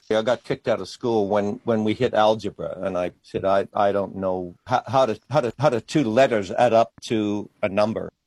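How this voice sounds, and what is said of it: Mixed Australian and international accent. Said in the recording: “It's a bit of a mixed up accent ... he is an Australian artist, but he spent many years in other parts of the world.”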